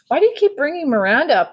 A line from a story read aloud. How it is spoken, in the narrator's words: yelled impatiently